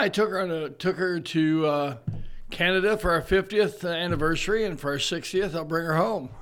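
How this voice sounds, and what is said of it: Usual voice. Nothing is said of it.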